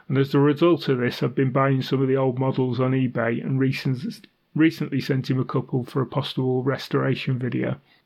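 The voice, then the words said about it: Congested, stuffy voice. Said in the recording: “I'm currently recovering, if you can tell it in my voice, from a heavy cold”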